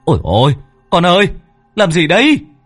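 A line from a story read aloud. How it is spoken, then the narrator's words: Alarmed cry. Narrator (Vietnamese): Vợ chồng Bính thấy thế thì kêu lên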